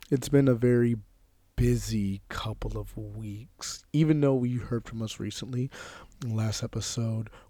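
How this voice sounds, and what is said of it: Slightly hoarse voice. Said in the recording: “As you can tell right now, my voice is a little hoarse.”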